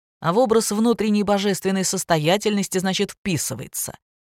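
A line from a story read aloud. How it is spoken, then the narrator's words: Sarcastic. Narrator (Russian): язвительно проговорил Павел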